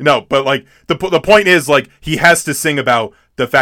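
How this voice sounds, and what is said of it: Usual voice. Nothing is said of it.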